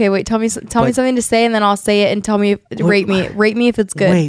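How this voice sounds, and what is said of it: Usual voice. Nothing is said of it.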